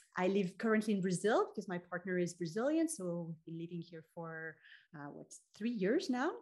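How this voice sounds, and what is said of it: French accent. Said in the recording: “I'm French, maybe you can tell by the accent.”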